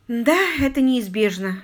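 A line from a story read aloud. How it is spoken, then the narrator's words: Sighing. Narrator (Russian): Дейзи вздохнула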